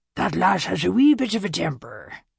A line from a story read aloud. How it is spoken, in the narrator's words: Angus, the tartan cap-wearing Loch Ness statue who guarded the door to the shop, said in his thick Scottish brogue